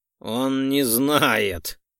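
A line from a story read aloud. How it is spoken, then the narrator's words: Snorting scoff. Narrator (Russian): хмыкнул Айрекс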